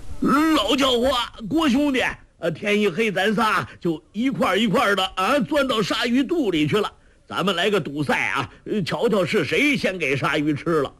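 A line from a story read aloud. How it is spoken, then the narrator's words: Shouting. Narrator (Chinese): 周伯通叫道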